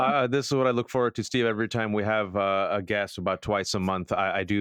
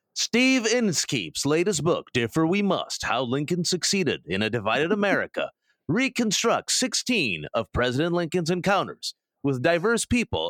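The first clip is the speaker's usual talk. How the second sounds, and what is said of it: Dramatic movie-phone announcer voice. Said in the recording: “do my movie phone voice”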